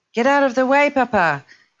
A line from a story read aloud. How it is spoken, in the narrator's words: yelled over and over